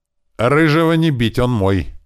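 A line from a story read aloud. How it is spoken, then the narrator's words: Barking. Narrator (Russian): рявкнул Андрей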